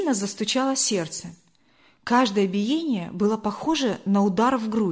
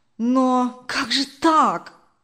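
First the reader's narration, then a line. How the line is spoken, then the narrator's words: Confused exclamation. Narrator (Russian): Сбитый с толку, воскликнул Даниил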